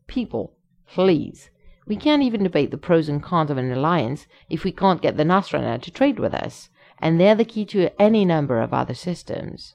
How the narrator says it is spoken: the Canadian snaps

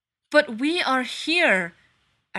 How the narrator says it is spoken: Eric shouts

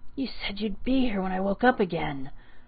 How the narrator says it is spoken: Haruka whispered, his voice cracking in some parts of his labored speech

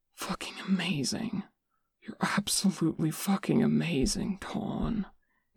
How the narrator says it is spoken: Nick mumbled

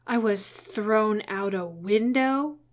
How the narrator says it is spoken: Eames exclaimed, so sharply

